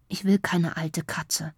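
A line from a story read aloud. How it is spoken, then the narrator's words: Quiet aside. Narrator (German): sagt leise, dass nur Mama es hört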